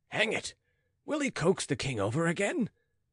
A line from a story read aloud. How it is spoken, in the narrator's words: muttered Richelieu